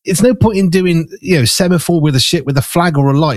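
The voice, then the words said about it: Fast speech, strong Black Country accent. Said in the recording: “I speak too quickly when I get excited. I'm from the Black Country ... You talk fast and quite strong accent.”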